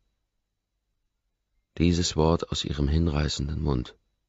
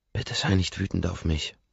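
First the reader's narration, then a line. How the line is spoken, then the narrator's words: Breathy whisper. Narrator (German): haucht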